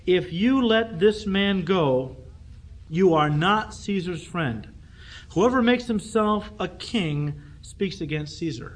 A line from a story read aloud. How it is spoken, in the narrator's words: the Jews cried out, saying